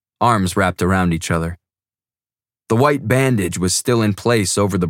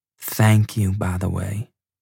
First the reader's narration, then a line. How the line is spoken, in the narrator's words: Gabby whispered